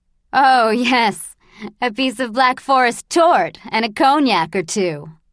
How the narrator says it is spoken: laughed Mrs

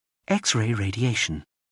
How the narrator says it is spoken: the earring whispered

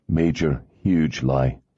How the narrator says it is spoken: he said dryly

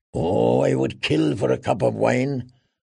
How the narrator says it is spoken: muttered Tyrion

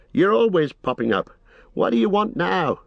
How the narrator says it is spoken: he cried

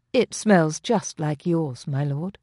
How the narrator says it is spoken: she said, her tone arch

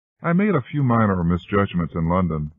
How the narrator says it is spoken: she said with a mocking laugh

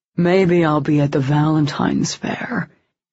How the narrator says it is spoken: he said in a husky, affected tone, a grossly oversimplified impersonation of Daniel

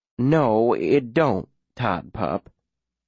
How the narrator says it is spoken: Hildy says, a little too gently

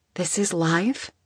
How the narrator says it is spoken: Isabel whispered

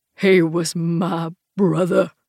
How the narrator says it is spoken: Frank growls, but his voice breaks on the last syllable

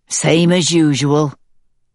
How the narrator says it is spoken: he says, his voice sounding metallic through the speakers

